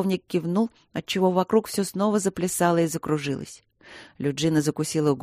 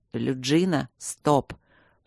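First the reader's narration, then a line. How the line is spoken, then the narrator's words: Hoarse wheeze. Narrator (Russian): просипел он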